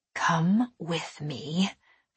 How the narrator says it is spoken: I said in a harsh whisper

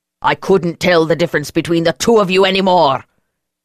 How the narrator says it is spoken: he roared

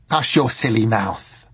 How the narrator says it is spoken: said Madame Semele sharply

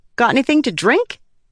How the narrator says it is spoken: The smuggler sputtering

